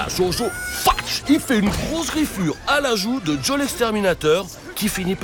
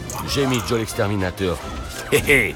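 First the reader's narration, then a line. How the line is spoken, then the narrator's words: Snickering. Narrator (French): ricane Papa Ninja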